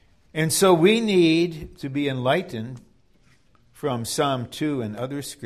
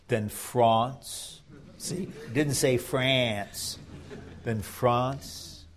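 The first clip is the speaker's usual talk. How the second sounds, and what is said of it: French-accented pronunciation of France. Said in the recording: “let me say it now with the right accent.”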